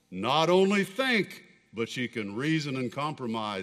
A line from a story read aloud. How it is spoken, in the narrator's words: said the Creator